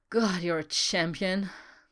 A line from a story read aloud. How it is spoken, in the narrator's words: he said with a satisfied sigh